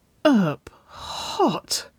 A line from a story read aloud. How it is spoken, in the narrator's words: Nicole whimpered